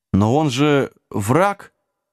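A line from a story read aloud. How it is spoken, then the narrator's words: Uncertain squeak, younger dwarf. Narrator (Russian): неуверенно вякнул какой-то гном помоложе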